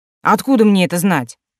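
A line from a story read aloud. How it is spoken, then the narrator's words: Irritated. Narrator (Russian): заметила она раздраженно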